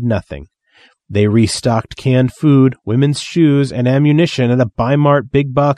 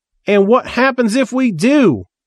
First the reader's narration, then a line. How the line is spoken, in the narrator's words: Reverend Sparkle shouted, yelping